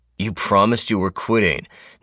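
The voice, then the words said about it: Stern fatherly voice. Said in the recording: “in his stern dad voice.”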